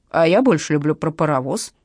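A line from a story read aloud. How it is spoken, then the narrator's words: Displeased old man. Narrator (Russian): недовольным голосом проговорил толстый старик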